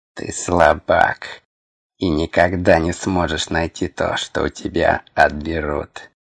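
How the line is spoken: Hissing. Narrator (Russian): Прошипел не то Хорг, не то сама тварь

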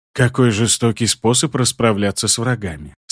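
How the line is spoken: Sympathetic sigh. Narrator (Russian): С сочувствием вздохнул Хопиш

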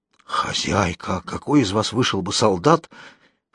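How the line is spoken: Nurse's hoarse announcement. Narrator (Russian): хриплым голосом объявила кормилица

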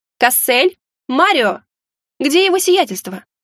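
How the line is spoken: Loud shout. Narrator (Russian): Громко крикнула я

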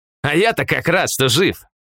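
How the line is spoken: Wry snort. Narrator (Russian): хмыкнул Полос

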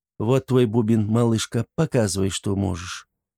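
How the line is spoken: Gentle and soft. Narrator (Russian): ласково и мягко произнесла она

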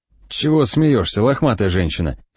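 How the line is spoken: Whispered question. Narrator (Russian): спрашиваю я шепотом

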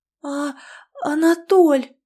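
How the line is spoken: Breathy exhale. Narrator (Russian): Выдохнула я

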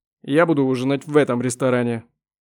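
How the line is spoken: Defiant shout. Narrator (Russian): крикнул он с явным вызовом

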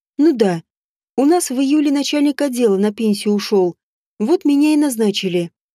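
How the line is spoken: Plain. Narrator (Russian): ответила она

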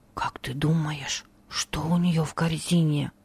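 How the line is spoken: Whispered question. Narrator (Russian): Шепотом спросил он у Хармия

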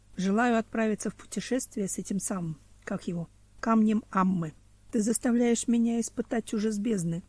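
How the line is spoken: Plain. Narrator (Russian): сказал Мгатилуш

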